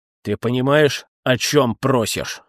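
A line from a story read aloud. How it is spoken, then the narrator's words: Menacing question. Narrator (Russian): грозно спросил Бим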